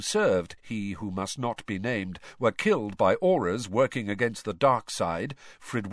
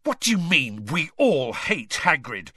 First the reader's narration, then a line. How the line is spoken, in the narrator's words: Harry spat at Malfoy